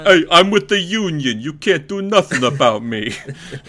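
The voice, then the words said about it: Staten Island accent. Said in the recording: “my union person came from Staten Island”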